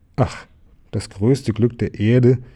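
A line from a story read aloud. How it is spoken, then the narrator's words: Exclaiming. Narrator (German): rief der Maulwurf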